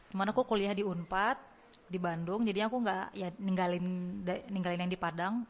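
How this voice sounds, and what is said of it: Noticeable Sundanese accent. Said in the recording (Indonesian): “logat Sundanya masih kerasa ya. masih ada aroma-aroma unpadnya di sini”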